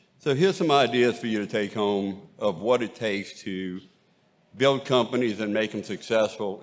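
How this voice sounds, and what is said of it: Cajun Louisiana accent. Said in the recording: “if you can probably notice from the accent, I am from Cajun country and grew up on Bayou Lafourche”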